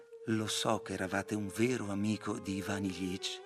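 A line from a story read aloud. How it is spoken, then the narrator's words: Sighing speech. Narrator (Italian): Praskovya Fyodorovna … sospirò … gli disse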